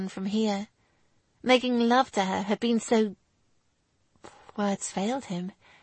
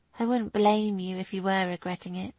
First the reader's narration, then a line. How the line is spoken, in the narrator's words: she said flatly, all joy completely removed from her face